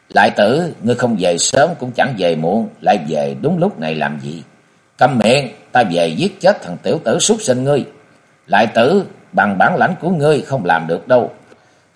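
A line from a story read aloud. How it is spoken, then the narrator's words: Smiling. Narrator (Vietnamese): Y mỉm cười nói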